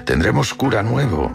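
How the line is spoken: Plain. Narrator (Spanish): le dijo

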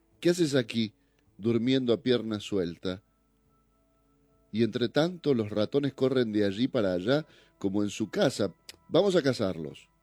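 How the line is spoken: Exclaiming. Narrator (Spanish): exclamó

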